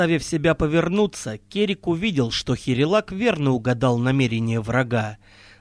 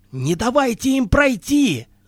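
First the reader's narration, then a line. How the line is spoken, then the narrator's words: Shout. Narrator (Russian): закричал Керик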